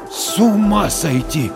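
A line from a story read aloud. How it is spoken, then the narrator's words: Stunned exhale. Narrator (Russian): ошарашенно выдохнул Дворкин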